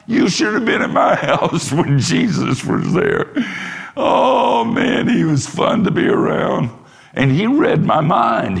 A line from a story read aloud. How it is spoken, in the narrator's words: He would say and laugh